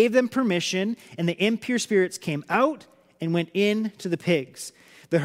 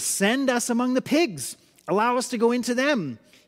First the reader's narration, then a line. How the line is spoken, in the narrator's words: the demons begged Jesus